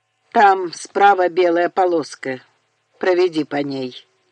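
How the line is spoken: Muffled flat voice. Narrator (Russian): глухо сказал Чарли

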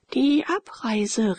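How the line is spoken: Reluctant exclamation. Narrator (German): rief Leonore unwillig

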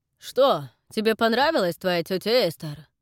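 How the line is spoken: Shouted. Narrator (Russian): выкрикнул он

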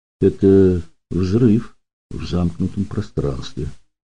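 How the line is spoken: Quiet. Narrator (Russian): тихо сказал Данил

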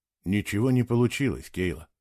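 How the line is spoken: Quiet. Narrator (Russian): тихо сказал он

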